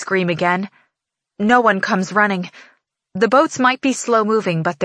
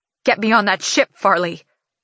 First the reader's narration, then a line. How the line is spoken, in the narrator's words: My voice shakes with anger